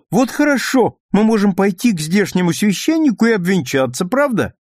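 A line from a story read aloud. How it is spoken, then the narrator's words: Quick exclamation. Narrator (Russian): Роберта сразу воскликнула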